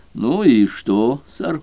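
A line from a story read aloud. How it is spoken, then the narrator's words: Grumbled. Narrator (Russian): Вулф буркнул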